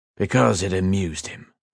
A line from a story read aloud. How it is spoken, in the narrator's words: the old soldier replied flatly